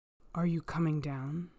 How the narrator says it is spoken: Bluebeard roared

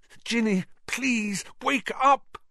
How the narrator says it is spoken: Harry muttered, desperately

